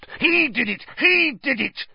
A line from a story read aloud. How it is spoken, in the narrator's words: Filch spat, his pouchy face purpling